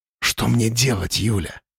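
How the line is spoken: Whispered. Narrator (Russian): прошептал Тимуров

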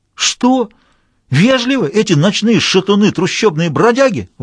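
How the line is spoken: Indignant exclamation, professor. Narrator (Russian): воскликнул опять с тем же негодованием профессор Бокса

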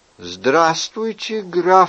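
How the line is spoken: Plain. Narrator (Russian): сказал кардинал

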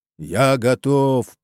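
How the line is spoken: Hollow booming giant voice. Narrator (Russian): прогудел голос, гулкий, как из бочки, и этот гигант

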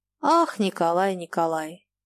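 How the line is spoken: Sighing. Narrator (Russian): Она вздохнула

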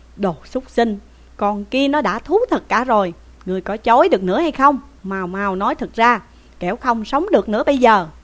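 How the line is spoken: Angry shout. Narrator (Vietnamese): Dương Hùng quát lên rằng

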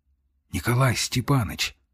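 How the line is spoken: Whisper. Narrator (Russian): слышу я шепот

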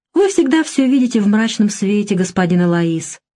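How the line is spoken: Calm reply. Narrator (Russian): спокойно ответила Альма

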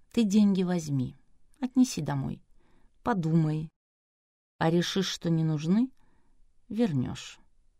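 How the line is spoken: Calm. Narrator (Russian): спокойно сказал

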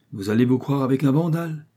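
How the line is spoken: Smiling exclamation. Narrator (French): s'écria en souriant Miss Wilkins

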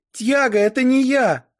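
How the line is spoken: Kind woman shouting. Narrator (Russian): закричала добрая София

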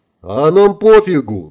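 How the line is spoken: Laughing loudly, group. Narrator (Russian): захохотали ребята

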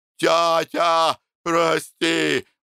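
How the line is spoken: Anguished wail. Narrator (Russian): взвыл Макар

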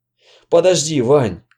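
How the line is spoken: Hoarse wheeze. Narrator (Russian): прохрипел он

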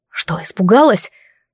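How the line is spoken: Whispering right into ear. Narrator (Russian): продолжал говорить с той же интонацией, добиваясь более сильной эмоции, и шепнул на самое ухо

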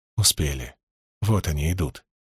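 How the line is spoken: Uncle's whisper. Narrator (Russian): шепнул дядя

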